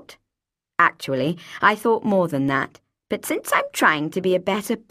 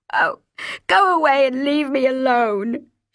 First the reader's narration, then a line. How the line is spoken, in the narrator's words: she sobbed